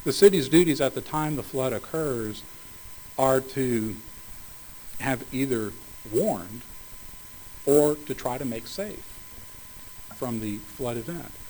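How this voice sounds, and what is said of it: Strained, hoarse voice. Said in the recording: “excuse me, losing my voice”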